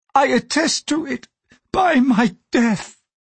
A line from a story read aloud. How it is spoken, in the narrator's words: she said, her voice quavering